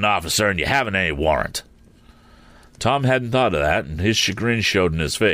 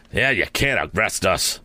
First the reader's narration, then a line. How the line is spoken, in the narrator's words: sneered Happy Harry